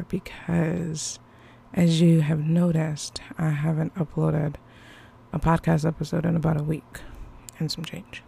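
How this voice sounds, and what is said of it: Low, smooth radio-style voice. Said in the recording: “I'm going to have to give you smooth jazz radio voice ... I have not been feeling well ... it's still lingering in the back of my throat”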